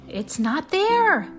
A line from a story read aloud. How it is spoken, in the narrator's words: cried Sabil